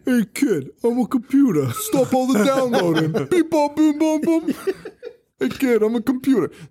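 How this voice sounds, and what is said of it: Silly made-up cartoon character voice. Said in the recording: “make a stupid voice ... make up the stupidest voices I've ever could have ever conceived”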